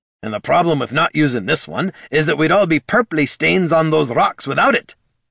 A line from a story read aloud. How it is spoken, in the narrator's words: snapped Gorm